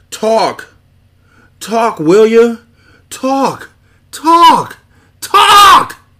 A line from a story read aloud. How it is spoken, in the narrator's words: the birth scream of a legend